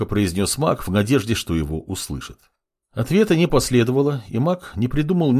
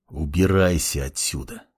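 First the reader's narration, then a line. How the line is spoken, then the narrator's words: Clan head, through gritted teeth. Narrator (Russian): Процедил сквозь зубы глава клана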